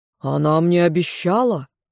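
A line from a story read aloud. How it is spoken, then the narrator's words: Growled, voice utterly changed. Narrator (Russian): он прорычал, да нельзя изменившимся голосом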